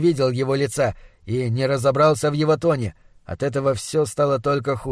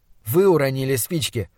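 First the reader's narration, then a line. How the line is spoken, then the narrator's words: Forced calm remark. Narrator (Russian): заметил я, стараясь говорить спокойно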